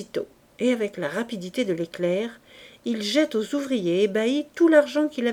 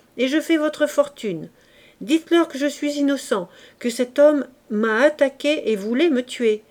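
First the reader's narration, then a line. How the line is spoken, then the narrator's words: Shouting. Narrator (French): crie-t-il à ses ouvriers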